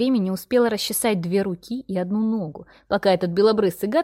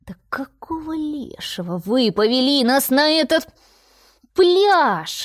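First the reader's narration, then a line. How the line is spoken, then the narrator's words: Loud wailing roar. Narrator (Russian): взревела белугой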